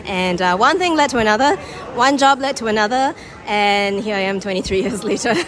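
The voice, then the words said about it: Singaporean accent. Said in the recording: “you still sound completely Singaporean ... Very Singaporean”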